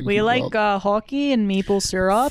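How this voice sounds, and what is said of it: Bad put-on Canadian accent. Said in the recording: “Sorry, Canadians, for those accents. ... mine was bad. ... I felt like yours was Minnesotan.”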